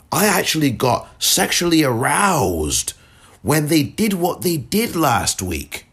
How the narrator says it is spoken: she shouts out, in this rant, she said

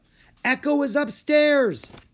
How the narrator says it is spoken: Drake cried

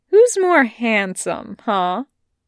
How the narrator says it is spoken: Wei Wuxian asks him cheerfully

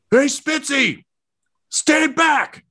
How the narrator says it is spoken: just yells

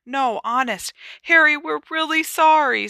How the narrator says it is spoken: said Hermione desperately, her eyes now sparkling with tears

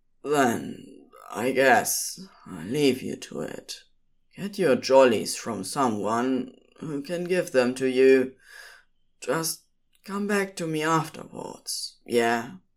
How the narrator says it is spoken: Crowley answered simply, then sadly said

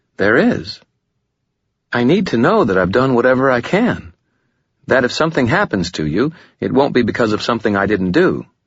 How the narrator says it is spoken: she said earnestly

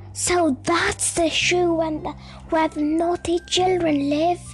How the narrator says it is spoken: said Beth excitedly

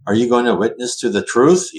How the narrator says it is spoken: He laughed

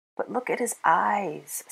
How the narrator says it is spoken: sighed the other keeper

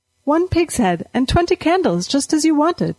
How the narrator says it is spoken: she said brightly

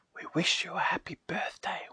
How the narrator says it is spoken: whispered the leaves

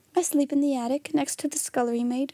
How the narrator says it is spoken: she said

